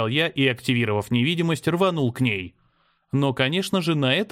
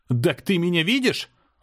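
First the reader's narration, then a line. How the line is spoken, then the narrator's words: Yelling. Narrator (Russian): заорал я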